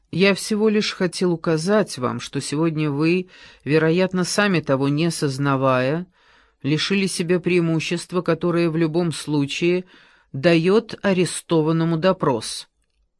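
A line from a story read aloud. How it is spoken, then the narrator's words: Loud, from behind door. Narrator (Russian): За дверью кто-то громко произнес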